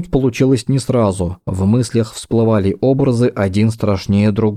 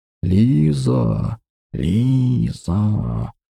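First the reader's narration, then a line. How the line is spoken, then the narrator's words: Snake-like hissing whisper. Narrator (Russian): Шепот, больше похожий на змеиное шипение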